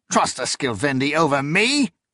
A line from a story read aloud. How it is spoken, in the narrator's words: He laughed harshly